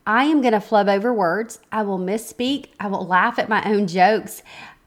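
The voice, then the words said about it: Southern American accent. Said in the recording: “I hope you're good with the Southern accent of mine because it's all I've got.”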